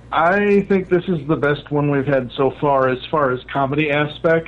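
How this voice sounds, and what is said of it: Midwest American accent. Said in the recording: “Why do you have a Midwest accent?”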